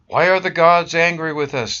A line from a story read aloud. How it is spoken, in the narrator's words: they shouted to each other